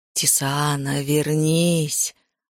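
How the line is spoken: Tender whisper. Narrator (Russian): ласково прошептал Зерит

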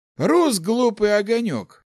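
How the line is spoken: Sighing. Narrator (Russian): вздохнул Ларс

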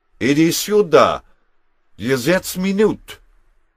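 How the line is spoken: Shouting. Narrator (German): brüllte

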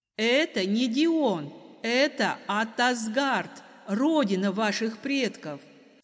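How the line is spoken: Loud declaration. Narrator (Russian): Снова громко заявила я

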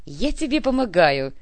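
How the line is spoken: Giggling. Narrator (Russian): хихикнул Хамзи

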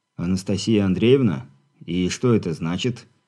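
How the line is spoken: Quiet composed question. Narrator (Russian): Быстро совладав с собой, тихо спросил безопасник

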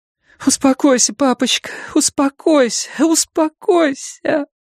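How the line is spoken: Sobbing. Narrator (Russian): Фрэнни снова разрыдалась

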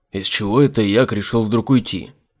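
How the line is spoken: Grumbling. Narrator (Russian): проворчал Айзек

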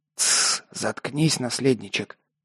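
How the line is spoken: Unkind hiss. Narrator (Russian): неласково прошипел кошак

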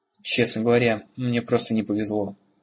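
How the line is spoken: Grumbling. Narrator (Russian): проворчал Бром

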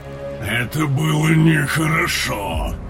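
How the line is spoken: Growling. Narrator (Russian): Прорычал Тейрн

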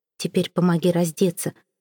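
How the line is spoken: Muttering. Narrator (Russian): пробормотал Сезар

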